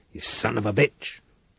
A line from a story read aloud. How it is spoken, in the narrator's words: Reich growled